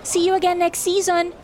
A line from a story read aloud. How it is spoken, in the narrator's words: he called out